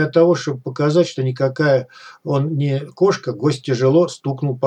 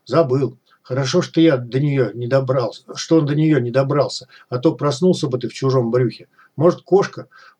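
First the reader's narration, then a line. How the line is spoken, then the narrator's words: Grumbling. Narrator (Russian): буркнул зануда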